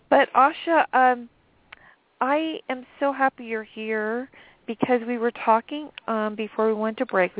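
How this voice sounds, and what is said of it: Slightly raspy, deep voice. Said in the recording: “my voice is kind of, I can't talk. It's just a little bit raspy ... Everybody's hearing the little deep voice”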